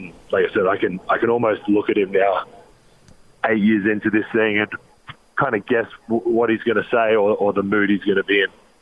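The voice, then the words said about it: Australian accent. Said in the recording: “Australian accent of the word shoot ... it's your Australian accent, and so we understand you talk funny in our country”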